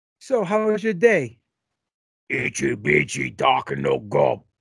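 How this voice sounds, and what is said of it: Imitates another person's voice. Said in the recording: “Let me give you an impersonation how it went down.”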